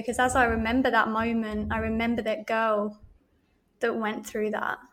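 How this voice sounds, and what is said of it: Wobbling, emotional voice. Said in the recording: “as you can probably hear, my voice is wobbling”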